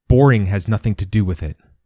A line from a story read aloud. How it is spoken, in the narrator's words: Bedwyr snapped, fighting to control his outrage